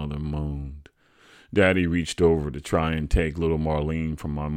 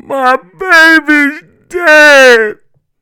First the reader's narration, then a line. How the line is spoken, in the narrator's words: In between the penetrating rhythm of her gloomy bellowing, my mother wailed